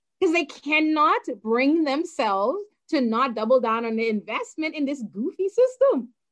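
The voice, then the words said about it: Bahamian accent. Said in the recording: “just as I have uh, an accent, you also have one. You are from the Bahamas.”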